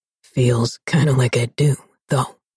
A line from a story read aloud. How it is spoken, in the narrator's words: he rasped